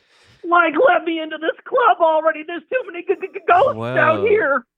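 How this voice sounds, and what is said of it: Cartoon dog character voice. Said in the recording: “That's actually pretty good. ... It's a really good Scrappy-Doo.”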